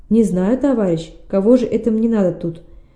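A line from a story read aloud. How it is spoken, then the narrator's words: Laughing. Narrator (Russian): засмеялся Шамси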